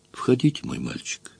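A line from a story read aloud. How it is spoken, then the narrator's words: Calm. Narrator (Russian): спокойно сказала она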